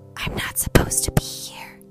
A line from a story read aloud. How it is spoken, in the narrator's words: Henry whispered